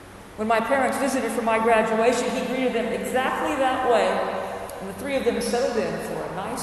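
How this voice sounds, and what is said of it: Usual voice. Nothing is said of it.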